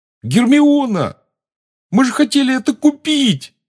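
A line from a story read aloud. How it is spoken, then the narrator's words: Yell. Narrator (Russian): завопил Рон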